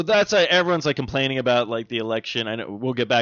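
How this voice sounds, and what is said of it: Usual voice. Nothing is said of it.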